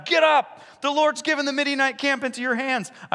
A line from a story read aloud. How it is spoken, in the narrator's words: he called out